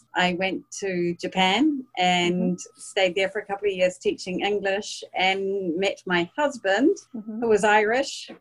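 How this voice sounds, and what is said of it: New Zealand accent. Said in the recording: “as you can probably hear from my accent, I'm not from the US. I'm a New Zealander.”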